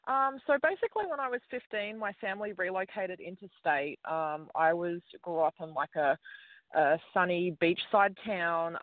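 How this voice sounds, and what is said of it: Australian accent. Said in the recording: “Obviously, you're from Australia. Love the Australian accent”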